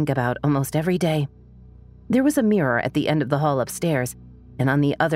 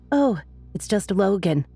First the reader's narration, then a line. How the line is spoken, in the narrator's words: with a little laugh and an unconcerned shrug